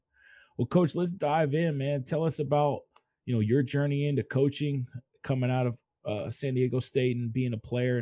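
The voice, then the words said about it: Slightly scratchy, hoarse voice. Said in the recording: “Pardon the voice ... I'm a little scratchy”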